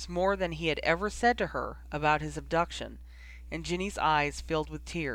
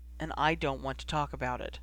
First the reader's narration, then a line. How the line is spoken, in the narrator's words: Ron said quietly